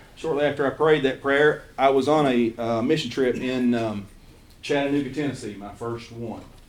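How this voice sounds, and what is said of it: Eastern Kentucky accent. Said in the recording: “my Eastern Kentucky accent”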